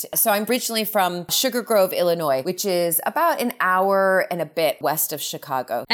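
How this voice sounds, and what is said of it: American accent. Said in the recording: “that wonderful tang you have in your voice ... it's still there, that American accent”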